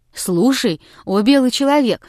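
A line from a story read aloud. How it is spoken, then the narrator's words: Bursting exclamation. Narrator (Russian): воскликнул, не будучи в силах дольше сдерживаться, Муцак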